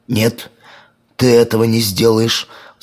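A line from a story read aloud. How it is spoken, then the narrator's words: Agitated shout. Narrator (Russian): взволнованно закричал мумитроль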